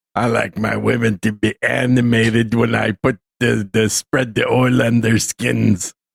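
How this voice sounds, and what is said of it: Imitates another person's voice. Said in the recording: “a CSB impression? ... a Darren O'Neill impersonation”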